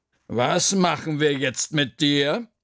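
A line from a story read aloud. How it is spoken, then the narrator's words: Thinking aloud. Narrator (German): überlegte Frau Krüger laut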